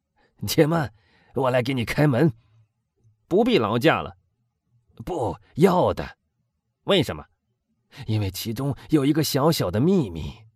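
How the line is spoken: Hoarse laughing. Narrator (Chinese): 卡德鲁斯带着他那种嘶哑的笑声说

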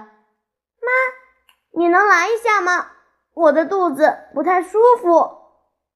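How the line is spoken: Calling out. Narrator (Chinese): 我叫着

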